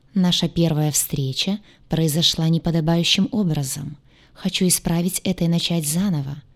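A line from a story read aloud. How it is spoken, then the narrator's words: Soft voice. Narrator (Russian): мягко произнес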